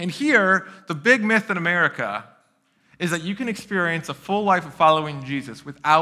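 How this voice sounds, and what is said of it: Usual voice. Nothing is said of it.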